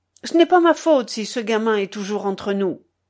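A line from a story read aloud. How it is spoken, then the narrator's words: Curt, clipped. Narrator (French): Il articula enfin d'un ton sec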